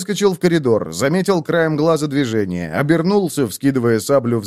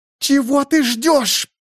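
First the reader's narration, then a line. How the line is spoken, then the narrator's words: Rude half-choked hiss. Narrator (Russian): полузадушенно прошипела Ритесса, забыв о всякой вежливости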